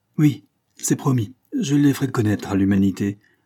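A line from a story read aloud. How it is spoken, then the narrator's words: Muttering. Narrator (French): marmonnai-je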